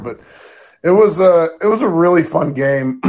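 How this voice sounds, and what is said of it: Raspy, rough voice. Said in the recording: “My voice sounds like I uh, like I'm uh, op, you know Optimus Bibbs when I smoked uh, you know a, a 12 pack of cigarettes last night”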